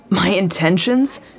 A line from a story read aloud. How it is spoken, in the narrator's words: He laughed, but there was bitterness in it